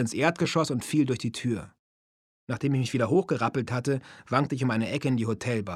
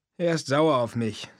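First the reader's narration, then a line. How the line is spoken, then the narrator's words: Sighed. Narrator (German): seufzte sie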